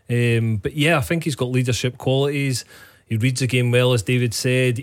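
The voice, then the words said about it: Scottish accent from Annan. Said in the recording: “that's an Annan accent that Cammy Bell's got. So that's just slightly different.”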